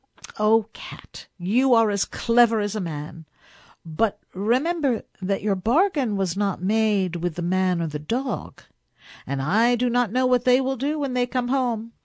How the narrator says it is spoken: the woman laughed and said

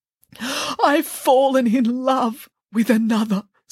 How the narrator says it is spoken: sobbed the princess

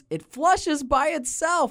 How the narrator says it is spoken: One of the kids exclaims

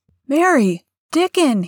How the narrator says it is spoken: he cried

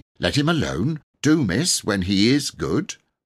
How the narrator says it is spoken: Martha said crossly

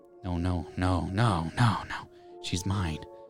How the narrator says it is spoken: the woman hissed

